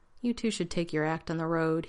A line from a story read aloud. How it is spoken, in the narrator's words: said in a tired voice